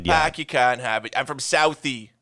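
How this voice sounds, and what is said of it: Exaggerated put-on Boston accent. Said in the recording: “a bad Boston accent ... that crazy Boston accent”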